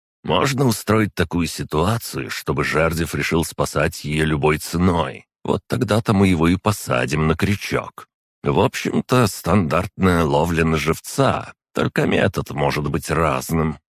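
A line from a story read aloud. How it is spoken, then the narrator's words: Plain. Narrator (Russian): ответил собеседник Шпеер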